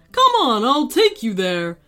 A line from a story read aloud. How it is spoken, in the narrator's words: the Yeti said happily